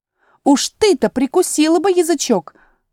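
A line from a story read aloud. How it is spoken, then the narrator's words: Exclaiming. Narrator (Russian): воскликнула тигровая Лилия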